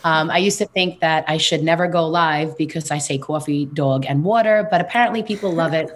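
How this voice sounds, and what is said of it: Queens New York accent. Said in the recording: “I am from Queens, New York, born and raised. So you'll hear it in my accent.”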